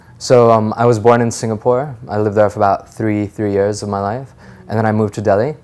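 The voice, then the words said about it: American-sounding accent. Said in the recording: “your accent doesn't seem like you were born or raised here ... I may sound American”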